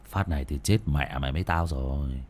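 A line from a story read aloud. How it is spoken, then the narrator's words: Grim-laughing mutter. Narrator (Vietnamese): cậu cười gằn lẩm bẩm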